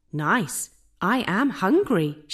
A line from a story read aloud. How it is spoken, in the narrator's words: she said